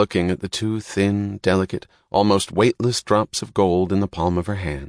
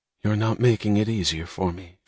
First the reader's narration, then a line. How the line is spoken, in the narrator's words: she said, her voice low